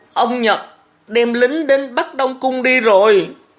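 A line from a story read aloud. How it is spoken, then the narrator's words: Tearful, whimpering speech. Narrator (Vietnamese): Thọ Hương mới vừa mếu máo vừa nói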